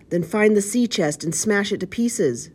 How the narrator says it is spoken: screeched the blind man

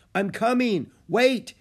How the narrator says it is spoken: he shouted

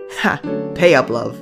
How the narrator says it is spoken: Theodore grinned

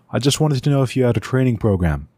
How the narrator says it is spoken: Loon shouted back

